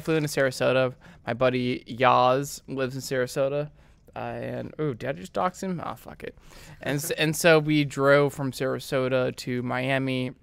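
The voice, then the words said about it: Speaking very softly and quietly. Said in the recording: “Can you talk louder? ... he's talking like a girl. ... You're talking really soft, and you usually talk very authoritative.”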